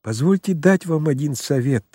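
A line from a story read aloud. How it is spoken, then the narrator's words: Timid. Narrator (Russian): робко сказал Очмианов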